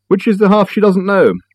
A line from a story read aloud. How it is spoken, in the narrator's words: Richard sighed